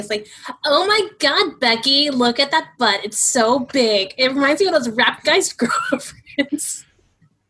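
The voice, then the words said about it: Valley Girl impression. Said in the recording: “Give me your best Valley Girl impression.”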